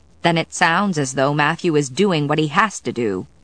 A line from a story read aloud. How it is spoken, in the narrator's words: she said firmly